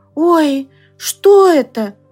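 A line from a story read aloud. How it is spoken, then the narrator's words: Shivering male exclamation. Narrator (Russian): воскликнул он, дрожа на ветру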